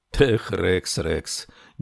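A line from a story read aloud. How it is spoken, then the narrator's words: Stifled laugh. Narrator (Russian): сдавленно рассмеялся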